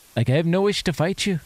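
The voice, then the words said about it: Put-on Irish accent. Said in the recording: “that's how Tom Cruise sounded in that movie ... my limited Irish accent”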